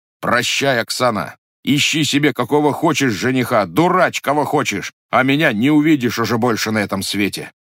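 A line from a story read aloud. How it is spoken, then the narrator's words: Firm voice. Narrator (Russian): сказал твердым голосом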